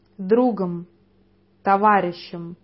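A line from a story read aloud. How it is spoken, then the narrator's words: Plain. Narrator (Russian): ответил я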